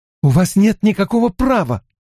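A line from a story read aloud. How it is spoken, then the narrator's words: Speech broken by shrill scream. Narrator (Russian): начала Эгвейн и пронзительно вскрикнула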